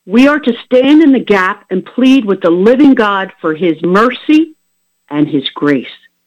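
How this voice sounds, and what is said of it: Bold, forceful preaching voice. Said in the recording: “my voice is bold. I'm not being soft today. I'm being bold.”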